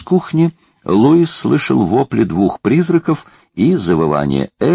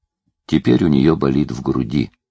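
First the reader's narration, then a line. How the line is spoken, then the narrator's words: Quiet. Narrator (Russian): сказал Джуд тихо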